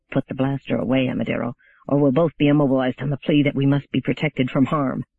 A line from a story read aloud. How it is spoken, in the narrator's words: Mandamus hissed